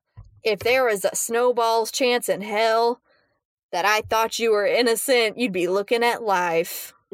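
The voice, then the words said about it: Midwestern American accent. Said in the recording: “that lovely Midwestern accent”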